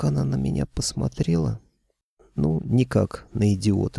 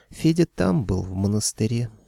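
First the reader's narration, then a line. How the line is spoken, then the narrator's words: Girl sighing. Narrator (Russian): вздохнула девушка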